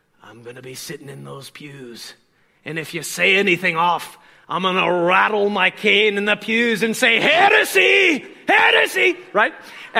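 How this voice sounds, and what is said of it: Attempted put-on accent, old man. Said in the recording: “I don't know if I'm going to nail this accent, but I'll try.”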